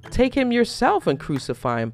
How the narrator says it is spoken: Pilate said

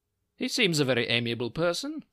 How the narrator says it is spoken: said Holmes, laughing

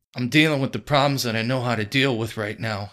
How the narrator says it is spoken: Harold snapped

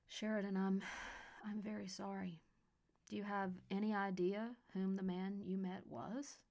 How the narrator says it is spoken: said Hazel

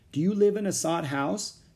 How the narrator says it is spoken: Jack asked

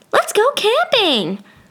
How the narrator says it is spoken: Joanna suddenly exclaimed

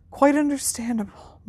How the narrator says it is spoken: murmured Dumbledore

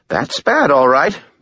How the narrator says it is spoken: Bob said cheerfully

